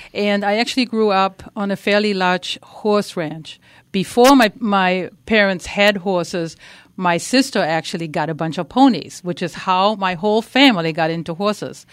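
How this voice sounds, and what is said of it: Slight German accent. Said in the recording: “I grew up in Germany. You might notice a slight tiny accent.”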